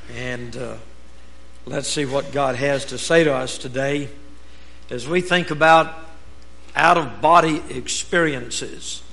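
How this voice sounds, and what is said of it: Hoarse, strained voice. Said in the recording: “apologize for my voice ... my vocal cords are inflamed a little bit”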